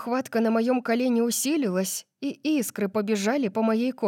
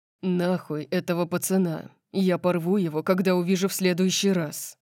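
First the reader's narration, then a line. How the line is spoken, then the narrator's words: Growling. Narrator (Russian): прорычал он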